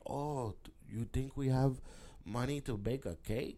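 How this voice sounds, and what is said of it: Put-on Mexican Latino accent. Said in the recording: “I don't even know why I sound so fucking Mexican. I got to work on my Latino accent.”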